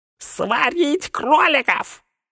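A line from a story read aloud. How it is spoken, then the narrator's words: Throaty shriek. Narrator (Russian): взвизгнул горлом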